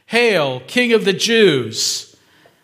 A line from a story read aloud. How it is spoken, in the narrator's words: mocked him